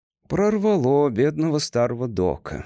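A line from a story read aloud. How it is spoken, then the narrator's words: Sighing. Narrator (Russian): вздохнул он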